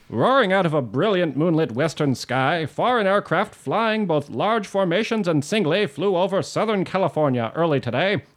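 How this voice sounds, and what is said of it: Old-timey newsreader accent. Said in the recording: “I want to read this in an old-timey accent, but I'm not great at them ... It's pretty good ... Excellent accent.”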